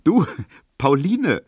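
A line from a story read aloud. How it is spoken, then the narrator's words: Called out laughing. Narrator (German): rief Emil Kubinke lachend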